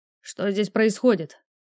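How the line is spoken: Stern, trained voice. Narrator (Russian): спросил строгим поставленным тоном

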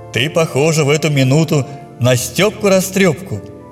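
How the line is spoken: Laughing. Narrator (Russian): сказал он, смеясь

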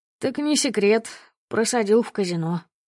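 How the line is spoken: Sighing. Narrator (Russian): вздохнул Пашка

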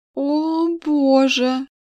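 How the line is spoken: Panicked moan. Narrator (Russian): простонала в накатывающей панике

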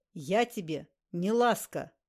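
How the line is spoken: Stern. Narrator (Russian): строго произнес Ласковин

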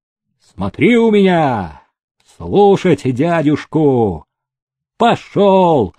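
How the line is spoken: Loud shout. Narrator (Russian): крикнул, чтобы услышал Никита Никитич

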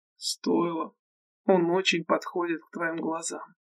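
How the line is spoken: Whisper. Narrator (Russian): шепнул он ей

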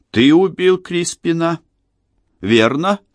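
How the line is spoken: Even, cold voice. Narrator (Russian): Голос Эмили звучал ровно и холодно

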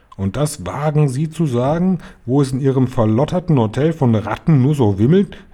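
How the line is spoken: Grandmother calling out. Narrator (German): rief meine Großmutter

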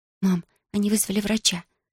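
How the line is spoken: Anxious whisper. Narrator (Russian): с тревогой прошептала

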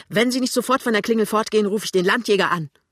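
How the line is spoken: Woman screaming. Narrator (German): die Frau schreit

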